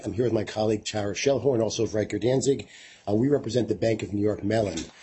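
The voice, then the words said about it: Sick, strained voice. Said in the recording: “Excuse my voice. I'm a little bit under the weather today”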